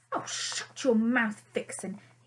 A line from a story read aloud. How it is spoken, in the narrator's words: he snapped